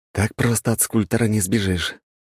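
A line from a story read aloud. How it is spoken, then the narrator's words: Sigh. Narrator (Russian): вздохнул я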